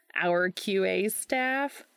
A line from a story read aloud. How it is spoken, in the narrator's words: Gabe laughed